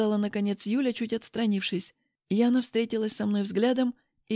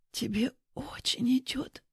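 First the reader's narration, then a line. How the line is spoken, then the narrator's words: Whisper. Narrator (Russian): прошептала Яна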